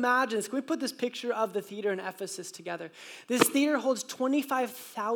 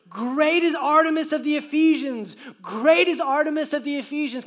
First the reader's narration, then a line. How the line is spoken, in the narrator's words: they all shouted in unison for about 2 hours